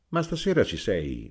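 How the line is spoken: Plain. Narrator (Italian): disse Amelia

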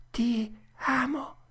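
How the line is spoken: Whispered. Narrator (Italian): timidamente sussurrò

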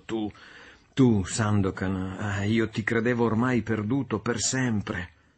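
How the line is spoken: Exclamation. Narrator (Italian): esclamando

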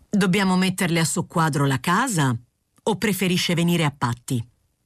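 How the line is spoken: Hard, firm tone. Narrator (Italian): E poi, con tono duro e deciso, riprese

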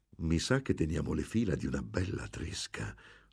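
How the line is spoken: Whisper. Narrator (Italian): sussurrò Don Cristobal

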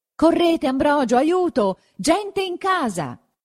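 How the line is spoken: Shout. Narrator (Italian): gridò verso lui don Abbondio

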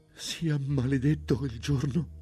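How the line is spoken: Stammering through sobs. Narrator (Italian): balbettò Matilde in un accesso di singhiozzi

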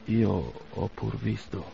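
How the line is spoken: Sad voice. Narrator (Italian): disse con voce triste

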